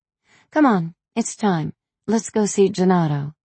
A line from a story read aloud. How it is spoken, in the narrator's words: she exclaimed cheerfully